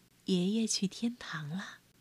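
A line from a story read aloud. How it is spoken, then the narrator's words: Soft, gentle. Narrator (Chinese): 妈妈 轻声说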